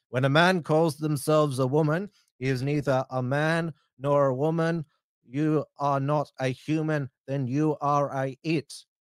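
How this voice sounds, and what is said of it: Put-on Iraqi accent. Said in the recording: “my best impersonation of Bishop Emmanuel's Iraqi accent”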